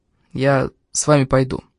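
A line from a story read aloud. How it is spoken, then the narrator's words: Quiet, after a pause. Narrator (Russian): Немного помолчав, тихо произнес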